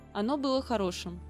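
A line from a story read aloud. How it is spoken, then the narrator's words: Plain. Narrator (Russian): сказал я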